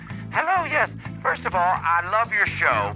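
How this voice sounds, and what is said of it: Deliberately bad put-on caller voice. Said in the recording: “I do the worst voices in the world”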